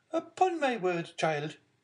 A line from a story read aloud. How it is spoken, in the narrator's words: exclaimed the angry Marquise